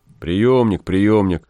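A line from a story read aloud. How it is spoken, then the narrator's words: Grumbling. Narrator (Russian): ворчал Гай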